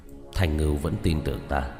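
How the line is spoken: Grave mutter. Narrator (Vietnamese): vẻ mặt rất ngưng trọng, lẩm bẩm

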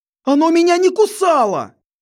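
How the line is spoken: Terrified wail. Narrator (Russian): Завопил перепуганный Стеван

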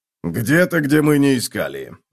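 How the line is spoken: Grumbled. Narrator (Russian): буркнул Готрек

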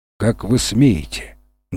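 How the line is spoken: Menacing. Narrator (Russian): грозно произнесла она

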